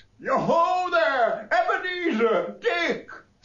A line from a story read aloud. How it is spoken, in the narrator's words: laughed all over himself, and called out